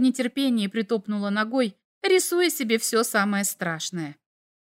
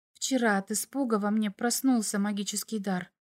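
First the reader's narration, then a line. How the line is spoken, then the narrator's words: Whispered explanation. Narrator (Russian): пояснила она шепотом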